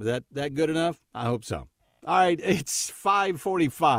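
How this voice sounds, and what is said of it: Usual voice. Nothing is said of it.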